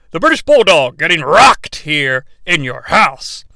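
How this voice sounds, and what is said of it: Vince McMahon impression. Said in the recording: “do my Vince voice”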